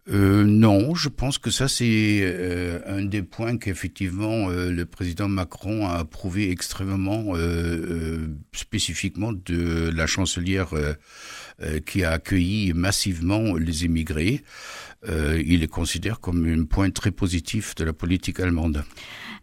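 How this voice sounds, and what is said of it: Slight German accent in French. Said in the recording (French): “vous avez entendu à son petit accent, même si vous parlez très bien français ... vous êtes consul émérite d'Allemagne”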